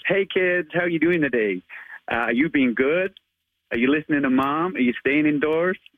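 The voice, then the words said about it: Attempted American accent. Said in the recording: “I try my best American accent as well ... give us your American accent as Spider-Man ... So I try my best. I'm not the best”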